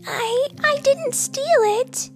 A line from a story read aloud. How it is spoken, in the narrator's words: Princess exclaimed